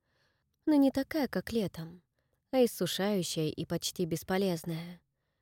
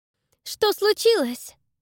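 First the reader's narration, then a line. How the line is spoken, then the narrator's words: Shouted. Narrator (Russian): крикнула Дакота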